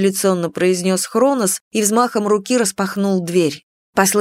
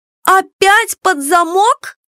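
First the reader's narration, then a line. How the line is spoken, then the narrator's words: Indignant exclamation. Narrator (Russian): возмущенно воскликнула Кико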